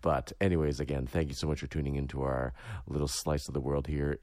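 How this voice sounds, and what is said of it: Hoarse voice. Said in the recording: “excuse my voice, it's a little bit hoarse. I've been coming down with something”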